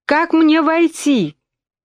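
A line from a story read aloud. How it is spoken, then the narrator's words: Loud repeated female question. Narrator (Russian): громко повторила она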